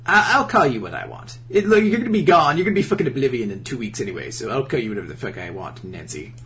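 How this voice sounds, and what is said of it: Rod Serling-like douchey voice. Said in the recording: “It sounds like the Twilight Zone host, kind of... Rod Sterling?... It's kind of like the tone... I was just going for, like, a douchey person.”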